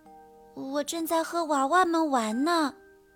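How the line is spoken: Soft-spoken. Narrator (Chinese): 威勒轻声地说

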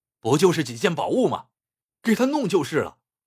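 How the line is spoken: Angry roar. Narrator (Chinese): 侯大少心中无名火直涌，吼叫着说

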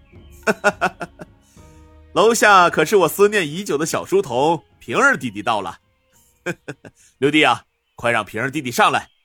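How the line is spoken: Hearty chuckling. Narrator (Chinese): 呵呵笑道

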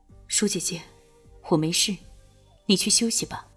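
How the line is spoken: Calmer, low voice. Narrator (Chinese): 他已经镇定了不少，低声道

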